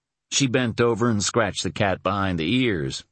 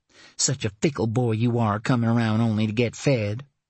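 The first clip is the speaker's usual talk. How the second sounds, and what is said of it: Thickened accent, soft purring tone. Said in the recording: “Her accent thickened as she purred to the cat.”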